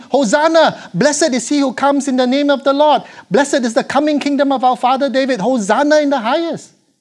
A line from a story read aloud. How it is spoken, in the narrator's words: shouting